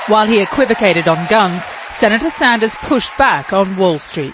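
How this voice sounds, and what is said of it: British accent. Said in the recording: “British accent ... British accent.”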